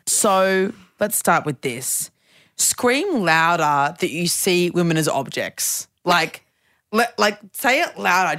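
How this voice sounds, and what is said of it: Weird put-on Queensland-style voice. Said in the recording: “I had this weird accent when I'm in Queensland... I put this weird voice on when I'm up here because I talked to my Queensland friends and we put this weird voice on”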